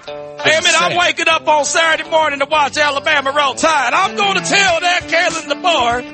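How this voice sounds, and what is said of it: Put-on Southern US accent. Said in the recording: “Out here speaking with a southern accent.”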